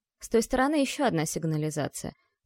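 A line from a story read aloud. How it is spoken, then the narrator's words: Soft rustling whisper. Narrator (Russian): тихо прошелестела мэтресса Алиена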